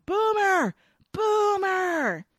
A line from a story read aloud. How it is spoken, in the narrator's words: Dash pushes through the crowd yelling